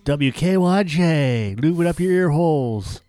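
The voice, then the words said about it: Radio announcer voice. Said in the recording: “talking in my radio voice.”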